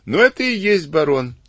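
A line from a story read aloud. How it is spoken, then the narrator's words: Laughing. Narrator (Russian): засмеялся Сивицкий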